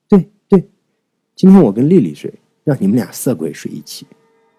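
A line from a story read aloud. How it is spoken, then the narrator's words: Awkward laugh. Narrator (Chinese): 袁也讪笑道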